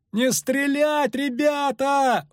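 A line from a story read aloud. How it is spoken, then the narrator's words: Full-voiced yell. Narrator (Russian): во весь голос заорал Лютик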